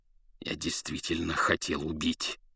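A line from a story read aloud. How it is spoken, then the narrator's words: Growled. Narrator (Russian): зарычал он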